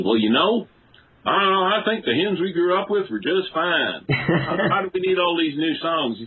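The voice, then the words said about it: Twangy Tennessee accent. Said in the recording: “had a really twangy Tennessee accent.”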